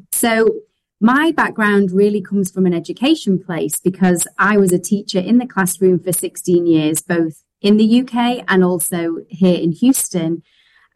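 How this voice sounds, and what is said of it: British accent, from Manchester. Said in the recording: “this is not a native Texas accent. This is a British accent. ... I'm originally from Manchester in England”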